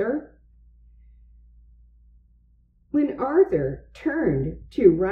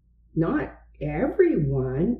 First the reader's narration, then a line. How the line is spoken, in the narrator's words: replied Buster